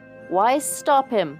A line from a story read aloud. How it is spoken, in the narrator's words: Jatmund shouted in her face